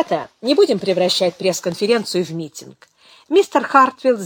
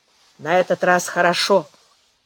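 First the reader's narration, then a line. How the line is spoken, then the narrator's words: Grumbling. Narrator (Russian): проворчал рядом Тед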